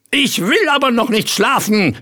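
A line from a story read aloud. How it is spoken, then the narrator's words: Wailing, howling shout. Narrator (German): schrie Ritterchen Rost, heulend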